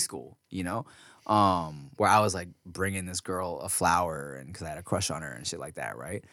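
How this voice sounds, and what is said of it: Usual voice. Nothing is said of it.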